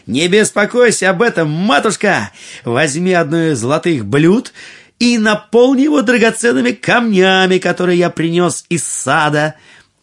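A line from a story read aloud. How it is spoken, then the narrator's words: Cheerful shout. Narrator (Russian): Аладдин весело крикнул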